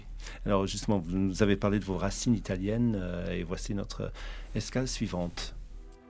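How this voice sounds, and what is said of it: British accent speaking French. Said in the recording (French): “mon accent britannique”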